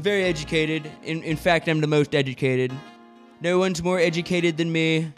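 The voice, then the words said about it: Donald Trump impression. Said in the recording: “I think I'm decent at that impression. I think it's not bad. ... the Donald Trump impression”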